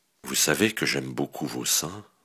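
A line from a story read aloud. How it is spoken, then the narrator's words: Whispering in ear. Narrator (French): lui chuchote-t-il à l'oreille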